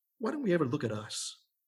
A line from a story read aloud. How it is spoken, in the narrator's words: He sighed